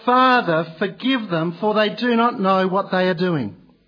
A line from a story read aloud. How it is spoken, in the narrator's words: He cried